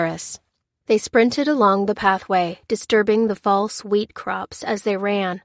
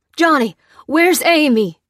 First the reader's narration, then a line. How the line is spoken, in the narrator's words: cried Pete